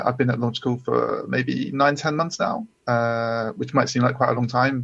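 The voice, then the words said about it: British accent. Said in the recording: “as you can probably tell from my accent, I'm I'm based in the UK”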